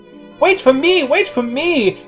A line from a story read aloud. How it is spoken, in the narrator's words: yelled out C-3PO